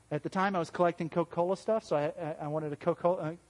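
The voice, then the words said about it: Southern American accent. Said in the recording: “my southern accent coming out”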